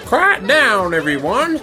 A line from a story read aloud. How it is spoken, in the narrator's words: Demolition Ball called out